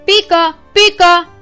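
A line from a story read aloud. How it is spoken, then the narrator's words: Deep shout like a dog. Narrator (Greek): φώναξε με τη χοντρή φωνή του, όπως ο σκύλος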